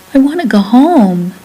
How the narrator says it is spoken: he begged

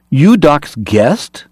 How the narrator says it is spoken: China Joe cried, recognizing Alex

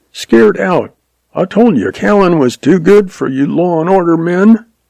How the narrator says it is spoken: Jack yelped

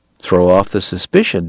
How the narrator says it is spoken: Deacon said shrewdly

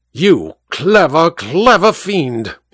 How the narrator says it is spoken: he snarled

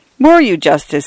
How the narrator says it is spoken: he exclaimed

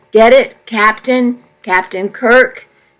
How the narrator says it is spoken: She giggled

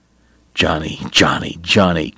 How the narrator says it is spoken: Kate muttered

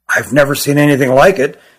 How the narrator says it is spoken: he said quietly

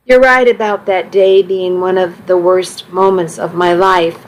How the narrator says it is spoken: I said

